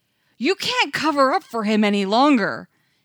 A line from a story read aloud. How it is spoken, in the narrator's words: an ethnographer shouted from somewhere in the back